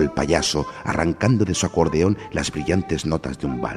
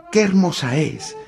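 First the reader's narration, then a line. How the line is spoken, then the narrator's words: Enthusiastic exclamation, little soldier. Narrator (Spanish): exclamó el soldadito al que le faltaba una pierna, con entusiasmo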